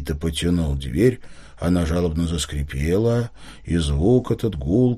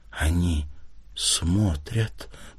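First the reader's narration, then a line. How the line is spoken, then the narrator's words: Whisper. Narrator (Russian): прошептала Лиля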